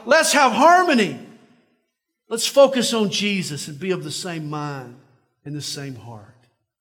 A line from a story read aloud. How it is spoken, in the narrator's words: Paul is in essence shouting out